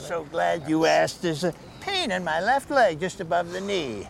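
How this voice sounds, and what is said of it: Caricatured old man voice. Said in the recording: “that old man was doing an old man impression... very caricature”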